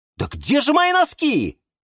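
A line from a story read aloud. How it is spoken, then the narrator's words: Shouting. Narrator (Russian): кричал Юра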